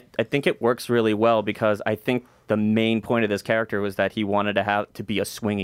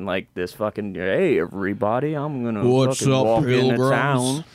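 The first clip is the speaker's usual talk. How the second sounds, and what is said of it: Poor imitation of another person's voice. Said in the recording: “terrible impersonation of John Wayne”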